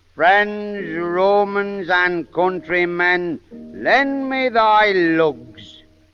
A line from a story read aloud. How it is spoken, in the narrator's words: slowly and weightily said